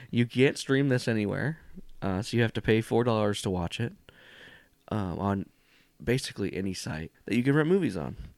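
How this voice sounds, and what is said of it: Raspy voice with slight cough. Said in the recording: “I am suffering from extreme allergies ... I got a slight cough ... my voice is a little raspy, like I smoked cigarettes.”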